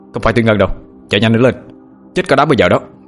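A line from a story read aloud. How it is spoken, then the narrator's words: Shouting. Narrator (Vietnamese): Anh Hùng lại hét lên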